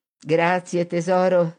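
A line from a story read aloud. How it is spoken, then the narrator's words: Mother laughing. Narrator (Italian): rise la madre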